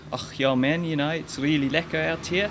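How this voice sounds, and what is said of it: Rhodesian accent. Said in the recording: “I picked up Rhodesian accent.”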